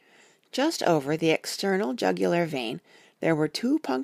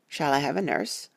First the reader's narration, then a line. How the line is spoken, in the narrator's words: I asked